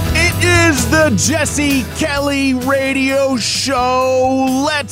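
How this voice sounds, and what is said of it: Usual voice. Nothing is said of it.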